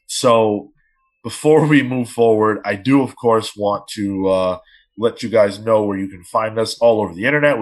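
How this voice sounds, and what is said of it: Slightly strained, rough voice. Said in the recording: “my voice is a little messed up”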